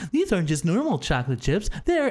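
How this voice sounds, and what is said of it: Warm commercial character impression. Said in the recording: “You did that impression like spot on. ... That was really good. ... there's a warmth to him.”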